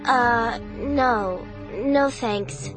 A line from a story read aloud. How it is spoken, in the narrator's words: I stammered